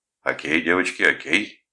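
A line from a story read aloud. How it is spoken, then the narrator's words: Commanding, soothing. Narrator (Russian): командирским тоном успокаивал он их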